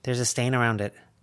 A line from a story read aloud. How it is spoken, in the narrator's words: Lucy murmured to Avery and Verona